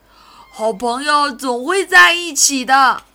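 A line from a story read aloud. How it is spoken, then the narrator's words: Laughing. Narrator (Chinese): 道格拉斯笑道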